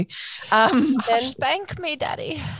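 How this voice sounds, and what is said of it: Put-on English accent. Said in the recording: “can I do my English accent with you? ... To an English accent.”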